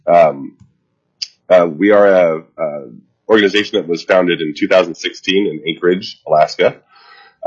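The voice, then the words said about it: Stuffy, congested voice. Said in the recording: “I have a head cold today, so sorry if I sound a little stuffy”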